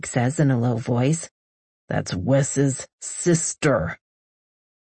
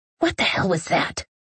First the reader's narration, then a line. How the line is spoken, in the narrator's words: I hiss